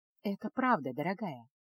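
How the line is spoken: Soft, gentle. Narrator (Russian): мягко произнесла Эреда

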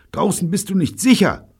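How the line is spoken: Frightened cry. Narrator (German): rief Evelyn angstvoll

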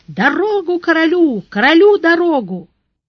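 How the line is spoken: Desperate shout while running. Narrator (Russian): Отчаянным усилием телохранитель, мчась на голову впереди, закричал

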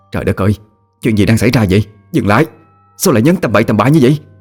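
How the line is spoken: Disbelieving shout. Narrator (Vietnamese): Vị bác sĩ không thể tin vào những gì mà họ chứng kiến mà hét lên

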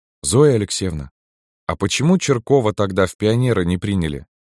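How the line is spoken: Plain question. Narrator (Russian): спросил Кирилл

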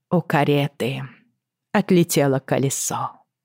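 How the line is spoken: Sigh. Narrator (Russian): вздохнула Иокаста

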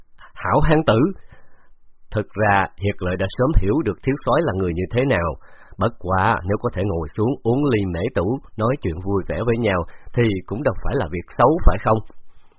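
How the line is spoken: Loud laughter. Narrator (Vietnamese): Đỗ Hưng cười lớn

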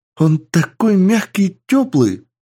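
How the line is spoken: Squealing with happiness. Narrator (Russian): Девушка завизжала от счастья

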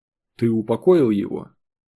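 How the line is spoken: Soft question. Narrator (Russian): мягко спросил Сергей

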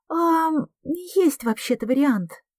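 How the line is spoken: Muffled squeak. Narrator (Russian): пискнула Лиля из глубины куртки

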